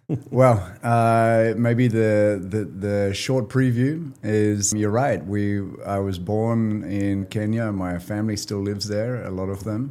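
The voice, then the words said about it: Kenyan Australian accent. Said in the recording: “the accent ... And the accent, yeah. Right? Kenyan Australian.”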